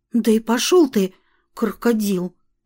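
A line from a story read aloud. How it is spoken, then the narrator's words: Cautious whisper. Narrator (Russian): сказала я на всякий случай шепотом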